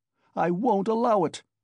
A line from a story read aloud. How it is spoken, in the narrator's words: he shouted